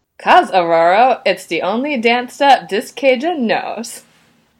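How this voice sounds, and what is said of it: Put-on accent, pretty good. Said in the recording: “Big props to you for your accent. That was pretty good.”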